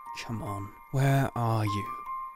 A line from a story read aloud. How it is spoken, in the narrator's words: He mumbled